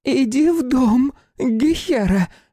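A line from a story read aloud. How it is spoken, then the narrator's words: Shrill woman's command. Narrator (Russian): визгливым голосом приказала другая женщина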